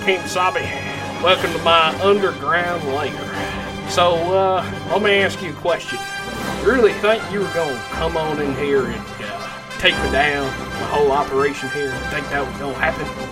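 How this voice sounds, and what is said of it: Put-on Southern country accent. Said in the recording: “a country accent that's a villain ... that hospitable twang to their voice”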